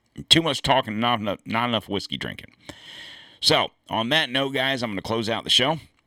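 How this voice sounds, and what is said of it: Hoarse, fading voice. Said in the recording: “I'm starting to sound like Bill Clinton ... as I am steadily losing my voice.”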